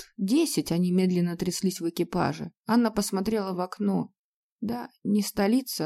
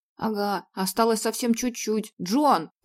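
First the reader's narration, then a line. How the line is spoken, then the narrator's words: Shouted. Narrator (Russian): крикнул он кучеру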